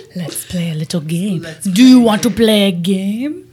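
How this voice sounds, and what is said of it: Theatrical vampire-like accented voice. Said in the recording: “Is that a French accent? ... Was that Russian? ... I feel like that was a Dracula.”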